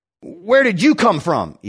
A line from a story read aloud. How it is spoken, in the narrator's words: Ebed asked more harshly than he intended